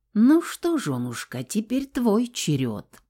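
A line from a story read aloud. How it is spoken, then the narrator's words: Whisper. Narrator (Russian): прошептал Саня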